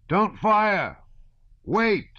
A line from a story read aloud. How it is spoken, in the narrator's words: he shouted